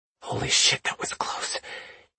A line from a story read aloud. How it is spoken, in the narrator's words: he whispered